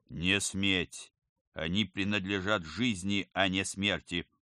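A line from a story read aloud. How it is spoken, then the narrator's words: Loud. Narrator (Russian): Оперативник громко сказал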